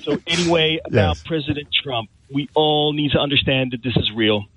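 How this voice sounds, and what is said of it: Philadelphia American accent. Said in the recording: “As you can hear from my accent, I'm from Philly, from Philadelphia, from the U.S.”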